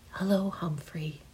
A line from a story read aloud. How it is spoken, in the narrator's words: whispers